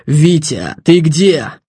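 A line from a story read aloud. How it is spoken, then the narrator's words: Hoarse question. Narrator (Russian): Титов хриплым голосом спросил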